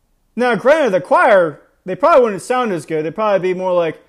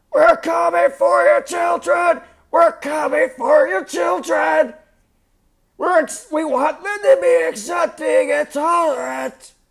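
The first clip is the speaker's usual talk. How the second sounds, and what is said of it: Strained mock choir singing voice. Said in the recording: “It wouldn't be a good singing voice, and I actually hurt doing that to my voice.”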